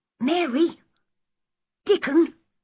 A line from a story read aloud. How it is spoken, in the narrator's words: he cried